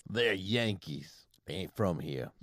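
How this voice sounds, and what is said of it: Put-on Southern US accent. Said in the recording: “talking in a southern accent”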